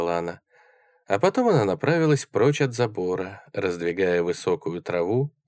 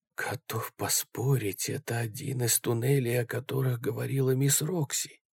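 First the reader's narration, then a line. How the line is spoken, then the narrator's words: Whispered. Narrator (Russian): прошептал Джереми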